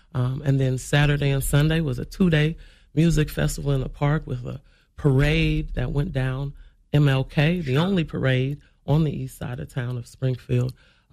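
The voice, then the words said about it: Hoarse, worn-out voice. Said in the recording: “my voice is shot. I'm usually as boisterous as you, speaking from the diaphragm.”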